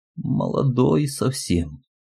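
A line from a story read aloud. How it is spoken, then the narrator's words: Old woman sighing. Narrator (Russian): вздохнула старушка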